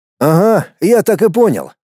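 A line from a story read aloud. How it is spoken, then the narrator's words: Wry grunt. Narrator (Russian): хмыкнул Дмитрий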